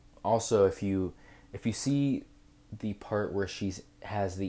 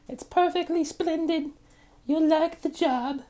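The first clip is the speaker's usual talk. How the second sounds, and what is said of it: Imitating a young girl, weak impression. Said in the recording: “It's the young girl like ... Not the best impression”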